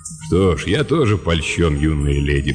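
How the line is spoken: Deep bass voice. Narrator (Russian): пробасил Лэб

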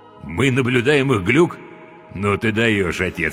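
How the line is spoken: Chuckling. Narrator (Russian): хохотнул Леонид

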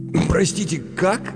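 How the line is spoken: Strained, forced out. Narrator (Russian): выдавил из себя Джон Тарди

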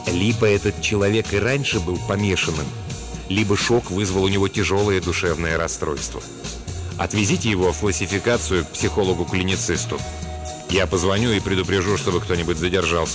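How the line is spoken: Low voice. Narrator (Russian): координатор сказал вполголоса

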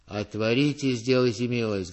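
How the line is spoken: Muffled deep bass behind gates. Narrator (Russian): говорил кто-то за воротами глухим басом

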